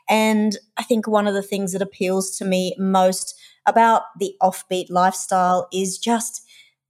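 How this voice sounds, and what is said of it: Australian accent. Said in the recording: “we're Australian, if you can't tell from my accent”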